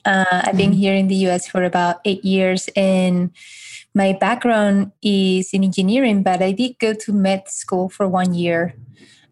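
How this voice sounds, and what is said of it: Spanish accent. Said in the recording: “this accent is from Spain”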